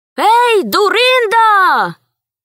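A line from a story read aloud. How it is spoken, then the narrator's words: Shout. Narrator (Russian): крикнул он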